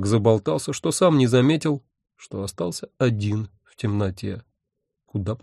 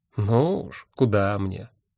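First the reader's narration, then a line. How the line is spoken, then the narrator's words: Grumbled. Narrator (Russian): буркнул он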